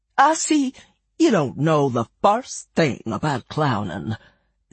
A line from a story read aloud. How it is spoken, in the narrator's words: said the colonel in a melancholy voice